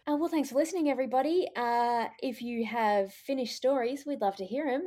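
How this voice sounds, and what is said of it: Put-on public radio announcer voice. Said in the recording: “Why are you doing your public radio voice?”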